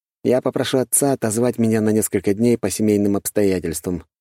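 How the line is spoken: Plain. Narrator (Russian): говорит Лекс

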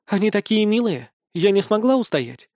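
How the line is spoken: Plain. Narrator (Russian): говорит

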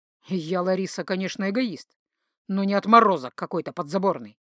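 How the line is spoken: Said through gritted teeth. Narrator (Russian): процедил Дан в ответ

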